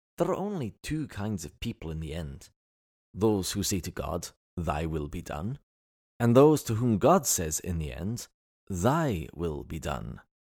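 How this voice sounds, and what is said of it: Funny put-on accent. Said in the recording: “I get to speak with a funny accent, because normally I don't speak with an accent.”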